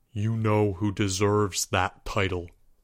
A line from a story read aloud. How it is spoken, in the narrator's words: replied Albert in a low voice